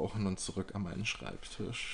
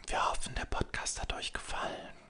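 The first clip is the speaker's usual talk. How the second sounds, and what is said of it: Soft, gentle ASMR-style voice. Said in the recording (German): “Hört ihr, wie sanft meine Stimme klingt? ... Das ist ASMR.”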